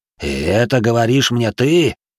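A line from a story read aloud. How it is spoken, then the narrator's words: Hissed. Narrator (Russian): Нараш потемнел лицом и прошипел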